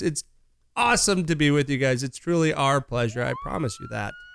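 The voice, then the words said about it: Strained, fading voice. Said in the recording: “I am losing my voice.”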